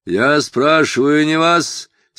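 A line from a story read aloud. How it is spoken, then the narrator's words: Fierce bark. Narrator (Russian): свирепо рявкнул офицер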